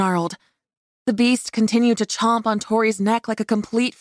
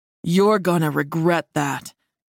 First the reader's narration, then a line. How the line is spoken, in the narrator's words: Darius said coolly